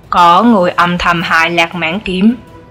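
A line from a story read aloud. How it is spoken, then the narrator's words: Plain. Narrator (Vietnamese): Triệu Phổ hỏi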